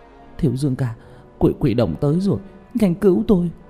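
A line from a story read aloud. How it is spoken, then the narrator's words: Whimpering, near tears. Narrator (Vietnamese): Chàng Vũ Ninh mếu máo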